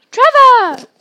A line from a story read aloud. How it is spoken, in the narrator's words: cried Neville blissfully